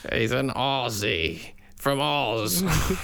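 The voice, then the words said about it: Bad put-on Australian accent. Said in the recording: “Australian, yeah ... a bad Australian accent”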